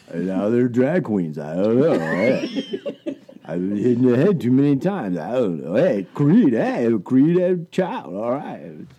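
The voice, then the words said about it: Imitates another person's voice. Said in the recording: “Mr. Stallone ... That's a decent impersonation.”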